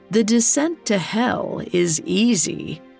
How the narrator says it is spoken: she croaked

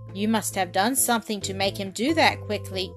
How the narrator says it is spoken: cried Mike

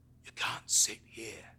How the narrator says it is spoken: he rasps

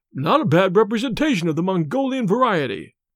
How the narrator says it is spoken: he exclaimed

